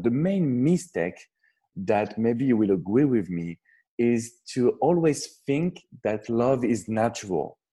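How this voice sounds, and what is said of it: Strong French accent. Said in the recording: “I'm French, so I know I have a strong French accent”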